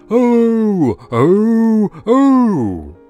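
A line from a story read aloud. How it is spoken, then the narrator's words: Loud singing. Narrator (Chinese): 鳄鱼对着朝阳大声歌唱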